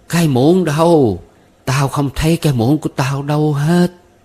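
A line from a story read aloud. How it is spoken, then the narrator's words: Trembling craving old woman's cry. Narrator (Vietnamese): bà cụ bỗng run lẩy bẩy vì thèm thuồng, bà cụ kêu lên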